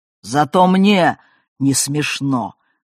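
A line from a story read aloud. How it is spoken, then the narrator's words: Growling. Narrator (Russian): прорычал Муса Алиевич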